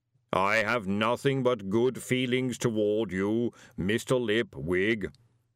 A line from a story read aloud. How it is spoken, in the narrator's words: boomed the voice cheerfully